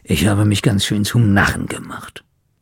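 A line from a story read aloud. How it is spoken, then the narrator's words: Grumbling. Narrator (German): brummte Schnorres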